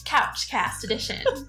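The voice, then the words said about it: Newscaster voice. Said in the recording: “In my newscaster voice.”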